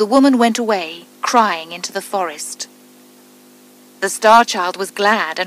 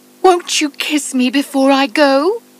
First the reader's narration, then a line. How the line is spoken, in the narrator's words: she cried